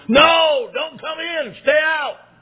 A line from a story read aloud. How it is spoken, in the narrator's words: all the students yelled